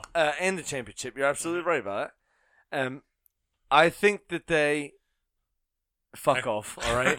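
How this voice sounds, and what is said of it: British Isles accent slipping in. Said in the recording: “I heard that little English, Scottish, Irish accent sneak in.”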